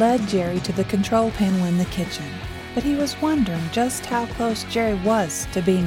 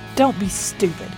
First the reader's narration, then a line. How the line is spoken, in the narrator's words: snapped